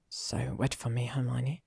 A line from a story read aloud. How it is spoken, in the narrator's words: he whispered